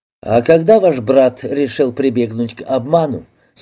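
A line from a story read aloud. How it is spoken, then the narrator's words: Plain. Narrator (Russian): спросил Алин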